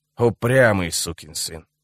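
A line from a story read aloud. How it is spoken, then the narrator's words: Grumbling. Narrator (Russian): проворчал он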